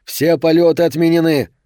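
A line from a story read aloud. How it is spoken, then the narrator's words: Shout. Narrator (Russian): один из полицейских прокричал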